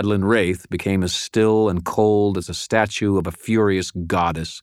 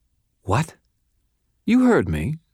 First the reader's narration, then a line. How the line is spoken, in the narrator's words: said calmly